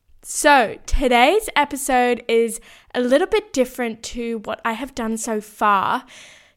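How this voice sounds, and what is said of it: Croaky, hoarse voice. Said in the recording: “apologize for my voice because it's a bit croaky today. I have a bit of a sore throat. ... it's a little bit croaky”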